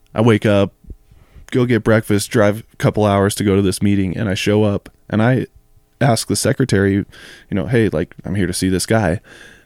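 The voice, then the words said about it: Hoarse, raspy voice. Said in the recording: “my voice was gone ... It's just voice ... listen to this raspiness today”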